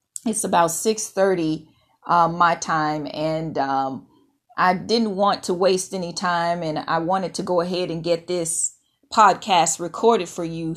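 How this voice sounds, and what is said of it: Slightly scratchy voice. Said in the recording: “apologize for my voice being a little scratchy this morning”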